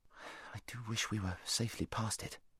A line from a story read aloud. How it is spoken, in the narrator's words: muttered Shasta to Huynh